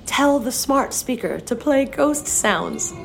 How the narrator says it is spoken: Mariella jumped to her feet and cried

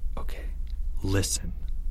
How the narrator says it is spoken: Leo whispered

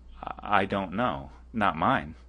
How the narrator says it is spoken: could hardly utter a word, and only stammered

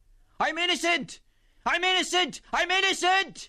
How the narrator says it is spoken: Cleary, who was weeping during the judge's remarks, cried

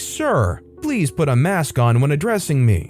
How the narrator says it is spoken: sternly told me

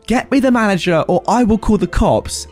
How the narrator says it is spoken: this 35-year-old woman scream

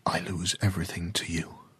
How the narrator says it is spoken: he whispered to the ocean

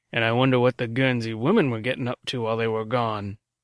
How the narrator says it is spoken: he snorted

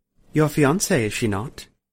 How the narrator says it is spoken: purred

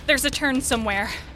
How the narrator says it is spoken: Minnie gasped, still purging her lungs of putrid air

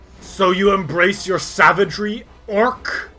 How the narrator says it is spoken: he snarls and says

